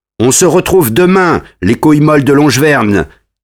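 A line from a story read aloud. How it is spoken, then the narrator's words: Shouting. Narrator (French): crie la steck des Gays en partant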